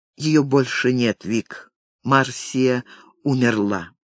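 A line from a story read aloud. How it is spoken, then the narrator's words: Trembling voice. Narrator (Russian): он ответил дрожащим голосом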